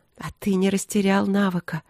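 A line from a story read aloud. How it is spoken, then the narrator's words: Languid whisper. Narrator (Russian): прошептала я разнеженно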